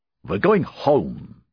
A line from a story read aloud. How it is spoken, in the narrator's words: snapped